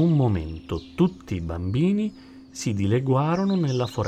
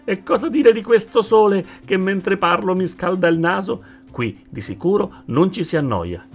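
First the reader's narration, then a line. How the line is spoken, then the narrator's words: Crocodile's joyful shout. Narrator (Italian): gridò il coccodrillo saltando di gioia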